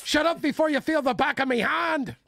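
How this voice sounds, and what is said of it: Put-on mixed Irish-English accent. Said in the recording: “Are we doing the Irish or are we doing the English accent? ... I'm all over the place.”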